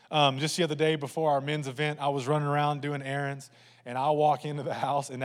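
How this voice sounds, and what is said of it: Usual voice. Nothing is said of it.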